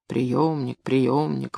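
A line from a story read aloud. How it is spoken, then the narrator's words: Grumbling. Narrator (Russian): ворчал Гай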